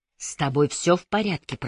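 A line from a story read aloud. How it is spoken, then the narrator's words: Whisper. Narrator (Russian): прошептал Патрик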